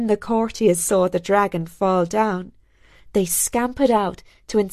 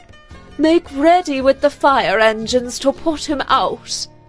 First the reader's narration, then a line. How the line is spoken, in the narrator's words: he called out